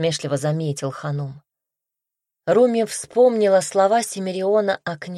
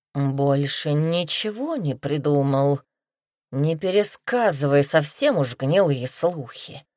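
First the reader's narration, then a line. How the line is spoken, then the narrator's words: Angry growl. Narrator (Russian): гневно прорычала тигрица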